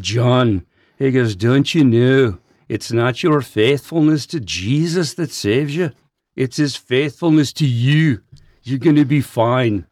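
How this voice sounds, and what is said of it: Put-on Irish accent. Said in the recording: “I called an Irish pastor ... I've got to do the accent ... it's got to be Scottish or Irish”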